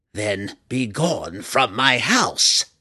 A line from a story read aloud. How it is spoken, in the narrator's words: the Matron Mother snarled